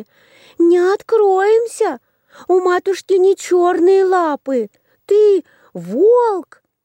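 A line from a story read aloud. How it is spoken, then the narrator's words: Children shouting. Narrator (Russian): Увидали ее козлятки и закричали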